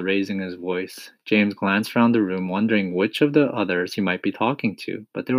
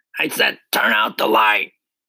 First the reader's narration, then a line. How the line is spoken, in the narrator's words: shouted the centipede angrily